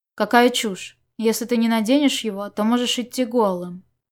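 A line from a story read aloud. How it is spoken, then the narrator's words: Cold curt retort. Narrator (Russian): голос Чуванина, холодно отрезавший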